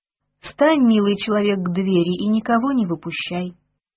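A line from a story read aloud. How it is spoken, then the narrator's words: Tramp's honeyed voice. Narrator (Russian): Босяк медовым голосом сказал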